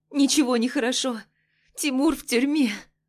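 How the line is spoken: Bitter sobbing, muffled. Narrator (Russian): Горько рыдаю ей в плечо

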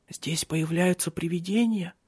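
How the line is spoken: Whisper. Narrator (Russian): прошептала она

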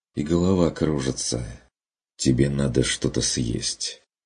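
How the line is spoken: Sighing. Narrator (Russian): вздохнул Стрик

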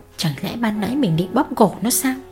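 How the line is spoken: Woman muttering. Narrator (Vietnamese): mụ lẩm bẩm

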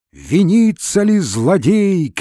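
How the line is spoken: Crowd shouting from yard. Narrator (Russian): кричала толпа со двора

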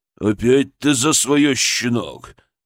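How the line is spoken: Angry growl. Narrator (Russian): прорычал он

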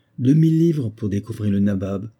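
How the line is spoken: Exclaiming. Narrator (French): s'écriait

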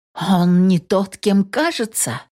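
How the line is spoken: Surprised exclamation. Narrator (Russian): удивленно воскликнула Инесс

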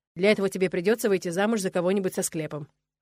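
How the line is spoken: Snorting chuckle. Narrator (Russian): хмыкнул Нола

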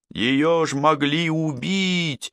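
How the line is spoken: Shouting. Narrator (Russian): закричала Прерия

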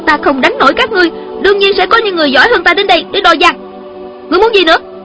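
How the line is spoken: Angry young woman. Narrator (Vietnamese): Thiếu nữ giận dữ nói

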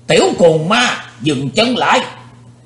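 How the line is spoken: Sudden shout. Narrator (Vietnamese): bỗng nghe có tiếng quát

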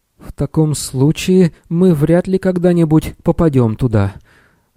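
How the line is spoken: Fearful sigh, chattering teeth. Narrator (Russian): стуча зубами от страха, вздохнул Сниш

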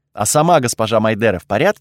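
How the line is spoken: Plain question. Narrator (Russian): спросил я

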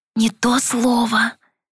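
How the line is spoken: Hissing whisper. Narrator (Russian): Тем же свистящим шепотом откликнулась леди Клеймор

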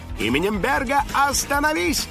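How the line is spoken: Shout. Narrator (Russian): крикнул Финик

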